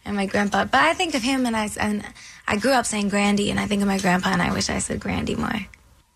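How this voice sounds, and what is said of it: Childlike baby voice. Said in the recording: “Why does she sound like she's a baby? ... There's a little baby voice happening.”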